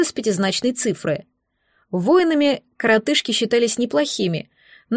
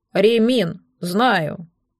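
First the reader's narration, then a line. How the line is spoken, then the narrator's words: Grumbling. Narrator (Russian): проворчал Дримлин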